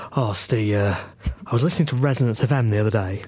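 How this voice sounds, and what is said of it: Disguised voice with an accent. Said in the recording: “I can tell by the accent ... disguising ... voice”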